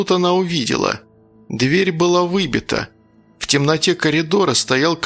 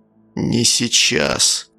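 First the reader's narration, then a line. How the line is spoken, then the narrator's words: Deathly lifeless voice. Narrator (Russian): произнес очень мертвенным голосом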